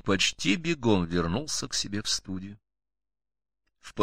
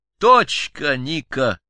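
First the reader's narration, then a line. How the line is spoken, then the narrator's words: Cheerful exclamation. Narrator (Russian): весело воскликнул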